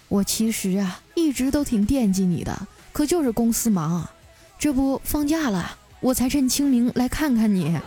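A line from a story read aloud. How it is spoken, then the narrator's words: Sighing. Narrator (Chinese): 我表姐叹了口气啊，说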